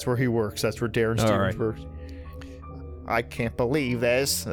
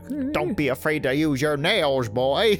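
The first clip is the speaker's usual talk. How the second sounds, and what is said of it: Imitates another person's voice. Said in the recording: “Got a little Jimmy Stewart in there”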